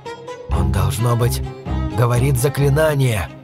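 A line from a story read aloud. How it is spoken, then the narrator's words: Whispering. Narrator (Russian): прошептал Уиллер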